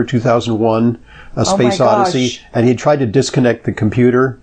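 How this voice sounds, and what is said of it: Usual voice. Nothing is said of it.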